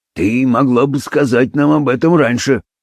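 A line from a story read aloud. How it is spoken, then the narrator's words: Grumble. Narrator (Russian): проворчал Беллами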